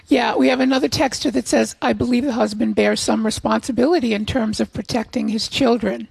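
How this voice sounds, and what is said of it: Strained voice, not at normal tone. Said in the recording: “my voice is permanently damaged ... I have a stiff right vocal cord that is working its way back to normal tone”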